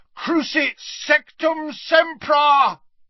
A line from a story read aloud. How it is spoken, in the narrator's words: bellowed Harry from the floor